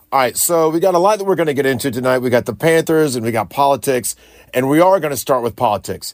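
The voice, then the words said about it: Slightly scratchy, rough voice. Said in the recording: “my voice is a little scratchy tonight ... maybe being difficult to hear me ... a little bit rougher tonight”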